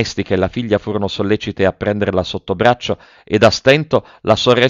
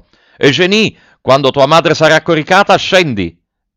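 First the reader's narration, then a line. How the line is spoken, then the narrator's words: Shouted. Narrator (Italian): gridò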